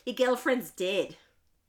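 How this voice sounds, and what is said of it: Australian accent imitating a teacher. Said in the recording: “I always think it in my teacher's Australian accent goes”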